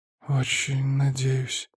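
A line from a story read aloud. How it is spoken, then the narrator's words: Muttered. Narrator (Russian): пробормотал заведующий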